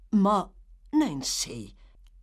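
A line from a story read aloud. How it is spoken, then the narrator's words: Startled exclamation. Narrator (Italian): esclamò l'ebreo, trasalendo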